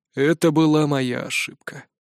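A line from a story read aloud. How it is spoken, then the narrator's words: Sighing. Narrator (Russian): вздохнул отец Урк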